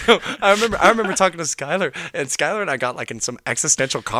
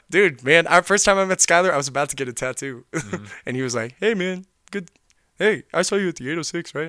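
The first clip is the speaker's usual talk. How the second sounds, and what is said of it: Imitates another person's voice. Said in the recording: “That's not a bad Skylar impression.”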